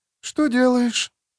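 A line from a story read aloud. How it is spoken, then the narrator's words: Sleepy question. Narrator (Russian): сонным голосом спросила она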